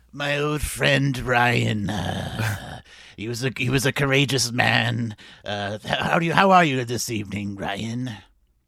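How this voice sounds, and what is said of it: Old man character voice. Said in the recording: “good Nicodemus impression? ... sound old.”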